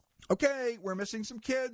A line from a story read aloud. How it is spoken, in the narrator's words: shouts an elementary school teacher